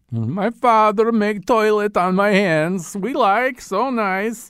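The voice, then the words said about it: Borat-like accent imitating David Harbour. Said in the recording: “David Harbour's accent kind of veers in and out of several lanes ... the superhero movie version of Borat”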